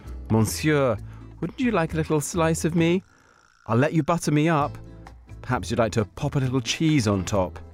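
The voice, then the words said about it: Soothing put-on French accent. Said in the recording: “I seem to have slipped into French picnic mode ... There's something about his soothing accent”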